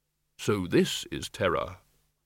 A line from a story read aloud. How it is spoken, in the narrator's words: the innermost tiny voice which said quite calmly